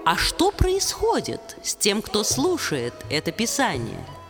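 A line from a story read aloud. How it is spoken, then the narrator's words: Plain. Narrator (Russian): спросил Вьяса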